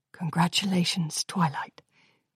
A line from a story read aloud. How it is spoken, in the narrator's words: whispered Principal Celestia